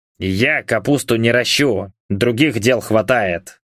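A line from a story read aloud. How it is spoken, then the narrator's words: Grumbled. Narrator (Russian): пробурчал Яромир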